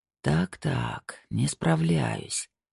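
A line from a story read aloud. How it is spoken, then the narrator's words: Muttering. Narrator (Russian): пробормотал Снейдер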